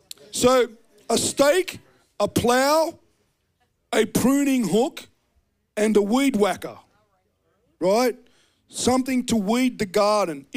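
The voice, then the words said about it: Australian accent. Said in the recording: “he knew by my accent, you know, dumb Aussie”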